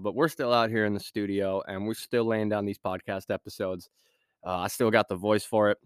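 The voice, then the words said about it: Scratchy, congested voice. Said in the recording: “my voice sounds a little scratchy. I'm fighting a pretty nasty sinus infection right now.”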